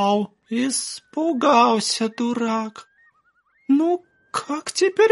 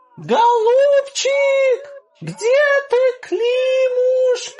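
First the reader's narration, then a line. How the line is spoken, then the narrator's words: Prolonged shouting. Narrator (Russian): Часа 2 кричал землемер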